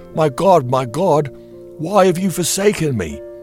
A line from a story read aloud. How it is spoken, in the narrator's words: he cried